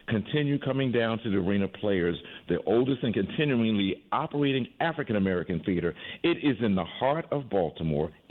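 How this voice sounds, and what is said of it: Good radio voice. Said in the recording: “Got a good radio voice.”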